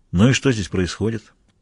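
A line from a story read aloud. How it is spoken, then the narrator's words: Calm question. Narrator (Russian): спокойно спросил Майк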